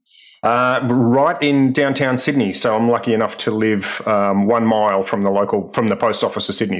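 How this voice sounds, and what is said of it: Australian accent. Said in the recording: “people probably recognize your accent. You're joining us from Australia.”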